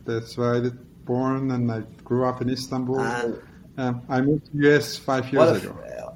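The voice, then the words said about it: Turkish accent. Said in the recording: “The accent is Turkish. ... you have a non-American accent”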